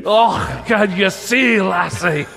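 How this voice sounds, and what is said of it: Put-on Scottish accent. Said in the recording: “can do a Scottish accent. do a Scottish accent.”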